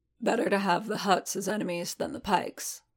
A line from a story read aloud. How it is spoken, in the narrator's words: Paz rumbled